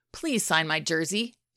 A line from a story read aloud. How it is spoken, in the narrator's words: Shane said